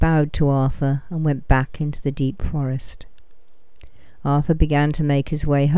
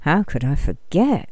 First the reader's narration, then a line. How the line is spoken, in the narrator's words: he muttered